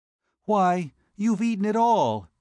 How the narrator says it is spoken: she exclaimed

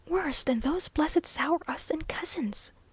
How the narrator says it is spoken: he confided to his brother in a whisper

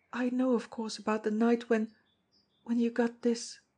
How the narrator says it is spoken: she said brokenly

